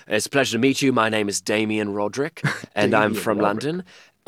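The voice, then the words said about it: Put-on British accent. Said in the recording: “pretending to be British men ... Please tell me you had an accent to go along ... of course. You know, we'd be talking like this”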